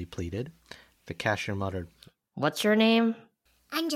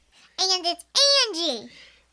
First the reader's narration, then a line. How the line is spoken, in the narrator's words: Anjali cried